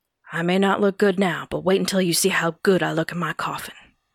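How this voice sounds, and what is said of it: Elvis impression. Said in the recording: “You have a better Elvis impersonation than me”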